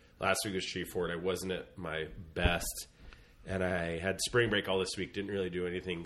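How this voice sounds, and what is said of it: Sick-sounding voice. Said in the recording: “I kind of had cabin fever. I got sick. You can kind of hear it in my voice.”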